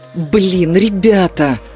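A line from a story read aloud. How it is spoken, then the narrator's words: Indignant, strained. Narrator (Russian): возмущенно выдавил Крис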